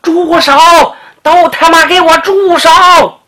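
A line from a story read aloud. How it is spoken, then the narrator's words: Shouted. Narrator (Chinese): 随着喊声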